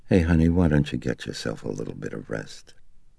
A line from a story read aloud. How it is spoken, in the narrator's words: Concerned, Chris said softly